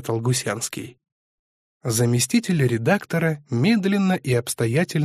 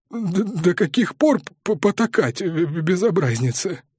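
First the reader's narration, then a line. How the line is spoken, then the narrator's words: Strained, embarrassed. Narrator (Russian): выдавил смущенно, оправдываясь за вспышку ярости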